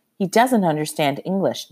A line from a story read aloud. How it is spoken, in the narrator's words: Nurse Bowen said